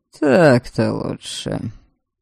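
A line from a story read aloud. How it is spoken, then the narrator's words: Grumbling. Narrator (Russian): пробурчал Норберг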